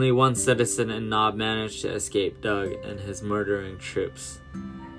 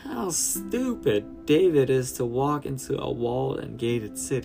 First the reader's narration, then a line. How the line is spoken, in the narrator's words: laughed